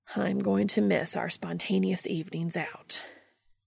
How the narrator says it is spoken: Cass said with a sigh

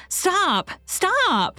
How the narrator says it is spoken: Anne called wildly after him

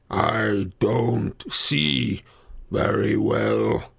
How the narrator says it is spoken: he growled

